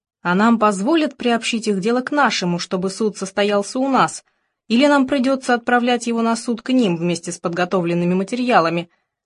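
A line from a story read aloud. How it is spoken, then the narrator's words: Plain question. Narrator (Russian): спросила она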